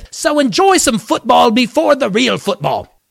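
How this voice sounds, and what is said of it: Bad put-on accent. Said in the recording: “It's a bad accent, I know.”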